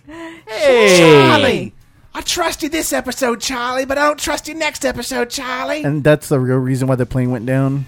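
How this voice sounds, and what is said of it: Exaggerated harsh Australian accent, Claire impression. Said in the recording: “She has a really hard accent, too. Like, it's harshly Australian.”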